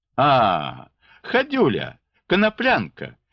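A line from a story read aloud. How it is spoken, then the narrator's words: Cheerful mocking exclamation. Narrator (Russian): воскликнул он весело, насмехаясь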